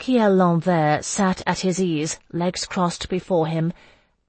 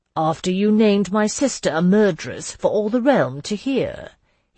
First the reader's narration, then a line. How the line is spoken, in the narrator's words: he asked smoothly